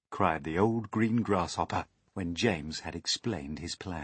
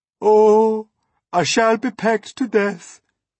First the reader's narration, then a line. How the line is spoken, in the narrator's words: wailed the poor earthworm